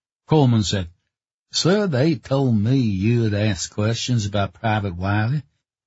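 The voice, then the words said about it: Southern Georgia accent. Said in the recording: “His accent was from the South, the Georgia Hill Country, maybe.”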